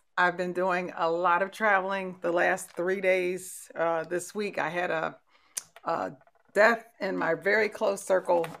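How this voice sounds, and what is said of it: Slightly hoarse voice. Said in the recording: “I am a little hoarse.”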